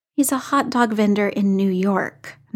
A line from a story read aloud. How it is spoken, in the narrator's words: Natasha said